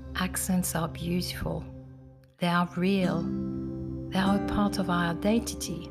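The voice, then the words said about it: Mixed French and English accent. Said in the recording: “Mine is a mix of French and English, due to the fact I'm French and I lived in England for 28 years.”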